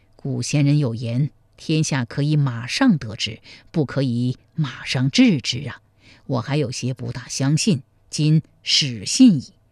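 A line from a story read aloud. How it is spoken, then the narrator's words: Sighing remark. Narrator (Chinese): 赵匡胤叹道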